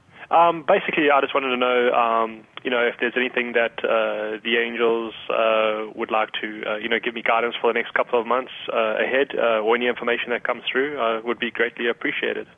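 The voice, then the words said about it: Speaks with a noticeable accent. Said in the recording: “You got a great accent, by the way.”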